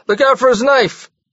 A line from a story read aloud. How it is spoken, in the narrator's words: the bartender yelled once more